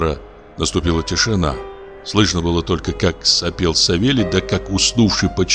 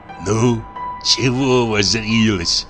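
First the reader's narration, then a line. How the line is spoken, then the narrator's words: Angry whisper. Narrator (Russian): сердито прошептал Савелий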